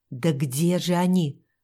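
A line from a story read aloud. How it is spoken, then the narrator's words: Annoyed muttering. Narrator (Russian): в досаде пробормотал Рудольф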